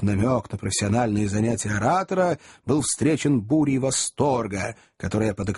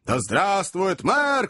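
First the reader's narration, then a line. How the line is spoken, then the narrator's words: Shouting. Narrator (Russian): кричал кто-то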